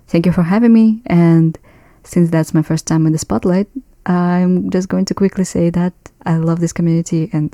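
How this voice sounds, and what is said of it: Non-native English, Russian-like accent. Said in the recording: “I am not a native English speaker. I'm from Central Asia, and I guess you can call it a Russian accent, but I'm not really sure.”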